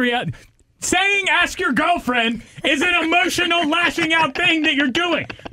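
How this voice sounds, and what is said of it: Usual voice. Nothing is said of it.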